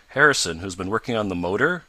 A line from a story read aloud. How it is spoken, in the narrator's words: cried the young inventor